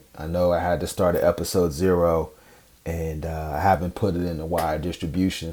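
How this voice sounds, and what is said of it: Scratchy voice. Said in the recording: “My voice is a little bit scratchy this morning”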